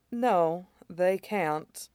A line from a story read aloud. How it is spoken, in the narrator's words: Mei Xiang said quietly